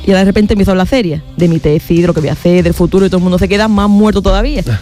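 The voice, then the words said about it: Andalusian Spanish accent. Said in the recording (Spanish): “yo llego hablando así ... de los chistes en andaluz”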